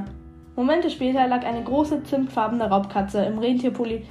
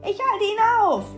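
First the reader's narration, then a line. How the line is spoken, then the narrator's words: Calling out. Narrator (German): rief Terry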